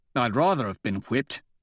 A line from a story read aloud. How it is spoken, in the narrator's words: he mutters, wincing as he tries to turn his neck